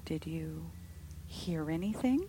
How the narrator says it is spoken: she asked in a low voice

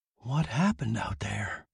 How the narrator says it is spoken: Betty Lou asked him in a taut whisper

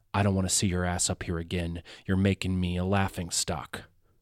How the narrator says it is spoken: whispers

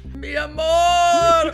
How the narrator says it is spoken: Gwen cries out

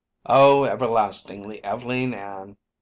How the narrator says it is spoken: mocked Horace

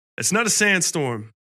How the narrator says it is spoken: he yelled back

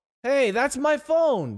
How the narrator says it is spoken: Donald shouted

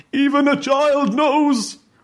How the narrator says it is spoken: Skychem's exasperated and finally sobbing repetition of the phrase

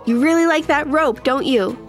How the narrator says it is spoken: yelled

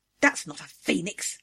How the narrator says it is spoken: she growled

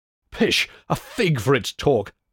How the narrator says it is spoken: cried Hercules

